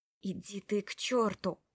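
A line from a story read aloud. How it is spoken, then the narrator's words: Spoken through gritted teeth. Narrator (Russian): процедила я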